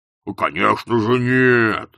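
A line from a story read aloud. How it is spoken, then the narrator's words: Growled. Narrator (Russian): зарычал Кардинг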